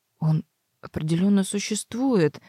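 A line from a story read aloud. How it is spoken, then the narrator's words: Muttered. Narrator (Russian): пробормотал Себастьян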